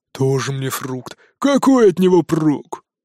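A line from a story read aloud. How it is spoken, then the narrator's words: Displeased grumble. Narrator (Russian): Недовольно проворчал жадюга Жорик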